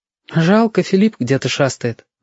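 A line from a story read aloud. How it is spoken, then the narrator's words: Sighing. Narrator (Russian): вздохнула Лис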